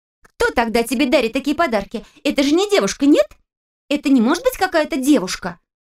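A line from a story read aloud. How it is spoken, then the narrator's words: Indignant rapid chatter. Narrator (Russian): возмущенно затараторила Женя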